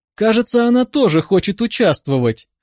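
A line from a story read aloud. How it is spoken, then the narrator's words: Laughing. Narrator (Russian): рассмеялась Катя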